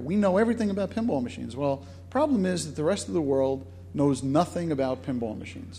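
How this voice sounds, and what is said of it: Brooklyn accent. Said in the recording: “my Brooklyn accent kicking in there”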